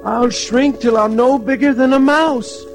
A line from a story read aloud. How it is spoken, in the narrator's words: wailed Tom